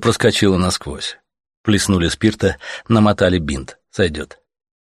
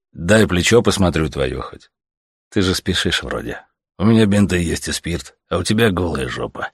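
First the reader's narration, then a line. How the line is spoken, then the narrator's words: Sighing. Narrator (Russian): вздохнул Савелий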